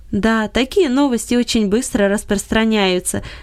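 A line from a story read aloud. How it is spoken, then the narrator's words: Laughing. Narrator (Russian): засмеялся Гельберт Леньерт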